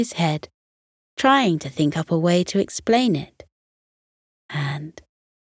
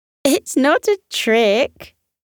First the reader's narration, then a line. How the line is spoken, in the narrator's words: said Koko, still laughing